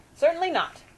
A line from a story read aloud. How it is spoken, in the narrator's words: Grandma snapped